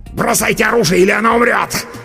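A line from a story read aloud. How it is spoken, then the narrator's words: Snarling desperate shout. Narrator (Russian): Оскалившись, крикнул чернокнижник с решимостью загнанной в угол крысы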